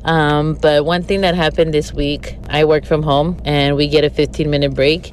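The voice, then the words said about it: Sick, weird-sounding voice. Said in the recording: “I'm sorry if I sound weird. I'm sick just like everybody else.”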